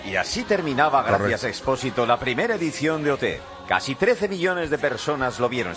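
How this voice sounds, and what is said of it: Old-fashioned put-on announcer voice. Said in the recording (Spanish): “Estoy poniendo voz así como de ayer.”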